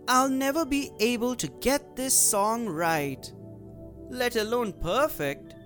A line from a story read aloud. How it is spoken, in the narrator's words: The mermaid Coral said sadly